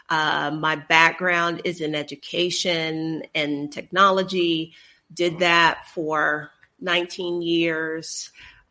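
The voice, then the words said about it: Texan American accent. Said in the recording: “I'm sure they can tell from my accent. I am originally from Texas”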